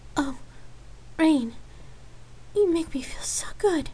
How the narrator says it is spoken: Lark moaned through their kiss

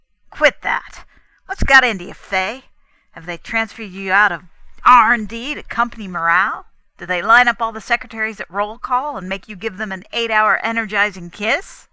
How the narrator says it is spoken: stared dazedly, rasping the back of her hand across her mouth, while yelled

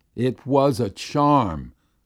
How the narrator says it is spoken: Ugh Gluk exclaimed

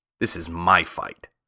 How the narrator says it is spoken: said the woodman

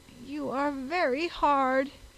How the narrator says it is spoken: whined

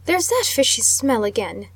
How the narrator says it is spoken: exclaimed Mr

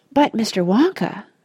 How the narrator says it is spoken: said Charlie Bucket anxiously

